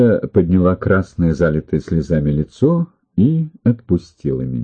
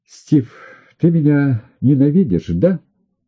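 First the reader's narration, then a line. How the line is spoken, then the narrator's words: Through a suppressed sob. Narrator (Russian): Она подавила рыданием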